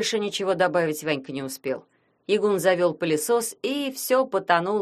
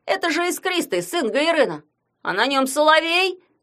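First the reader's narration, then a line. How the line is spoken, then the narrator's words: Shouting over noise. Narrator (Russian): Сквозь треск пылесоса крикнул Ягун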